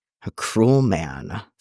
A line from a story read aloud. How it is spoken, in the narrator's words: Fox mutters against his thigh